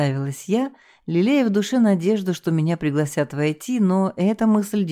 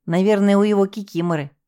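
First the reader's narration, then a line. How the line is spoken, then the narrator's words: Scornful snort, girl. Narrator (Russian): презрительно хмыкнула девушка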